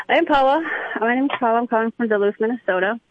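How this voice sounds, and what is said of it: Breathless, out of breath. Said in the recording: “you sound like you're out of breath. Were you doing jumping jacks”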